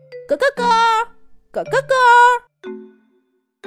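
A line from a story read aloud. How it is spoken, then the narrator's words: Shrill rooster crowing. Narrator (Chinese): 就听见耳边传来刺耳的鸡叫声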